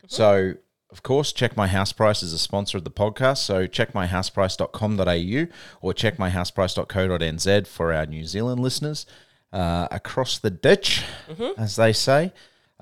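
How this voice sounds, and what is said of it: Australian accent. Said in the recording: “Don't let my Australian accent fool you. I've got Kiwi parents, even though I'm Australian born.”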